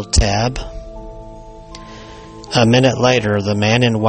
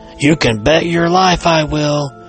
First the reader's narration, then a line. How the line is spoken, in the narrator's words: cried Tabb